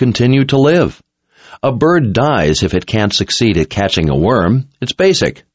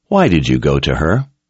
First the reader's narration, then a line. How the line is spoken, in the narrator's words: Richard asked in a gentle tone